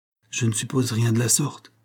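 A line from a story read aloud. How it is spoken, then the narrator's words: Timid reply. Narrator (French): répondit timidement l'idiot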